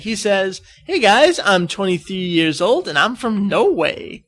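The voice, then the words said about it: Weird put-on accent. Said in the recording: “I don't know why I'm giving them a weird accent, so I'll just read this normally.”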